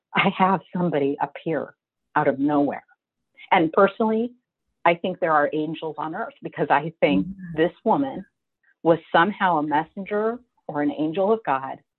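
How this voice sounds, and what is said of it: Choked up, emotional voice. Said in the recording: “You can tell I'm a little choked up.”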